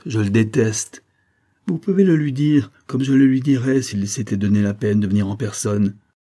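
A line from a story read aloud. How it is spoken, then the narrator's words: Violent outburst. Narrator (French): s'écria-t-elle avec violence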